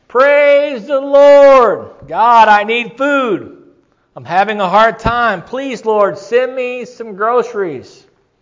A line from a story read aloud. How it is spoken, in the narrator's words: She shouted